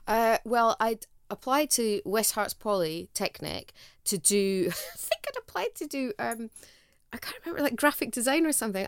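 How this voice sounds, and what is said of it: Scottish accent. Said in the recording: “You have a wonderful Scottish accent.”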